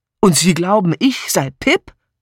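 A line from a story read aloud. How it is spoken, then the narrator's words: Loud laughter. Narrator (German): Edmund lachte schallend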